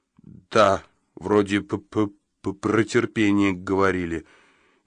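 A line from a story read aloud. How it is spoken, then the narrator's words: Barely audible, stammering. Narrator (Russian): еле слышно, запинаясь, выдавил он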